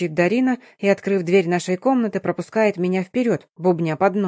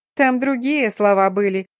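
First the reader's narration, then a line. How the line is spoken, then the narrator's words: Giggling reminder. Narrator (Russian): хихикнув, напоминает подруга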